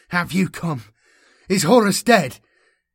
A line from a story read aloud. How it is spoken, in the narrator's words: Erasmus cried, his voice choked with spiritual pain